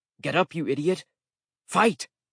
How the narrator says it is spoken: He grunted at me impatiently

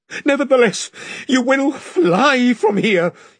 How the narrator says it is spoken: he gasped

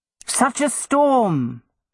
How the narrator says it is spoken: Madame Crespin exclaimed

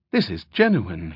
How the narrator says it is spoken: he announced brightly

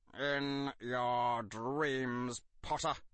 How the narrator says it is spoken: spat Severus

